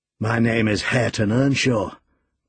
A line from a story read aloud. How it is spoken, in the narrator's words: growled the other